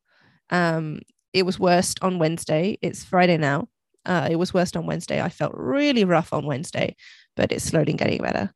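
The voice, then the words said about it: Sounds sick with a cold. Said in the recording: “I don't know if you can hear in my voice, but I've had some of my symptoms have been a strong cold.”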